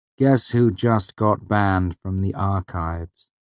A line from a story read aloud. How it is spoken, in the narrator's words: I said gravely